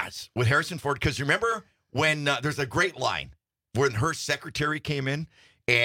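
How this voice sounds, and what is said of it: Usual voice. Nothing is said of it.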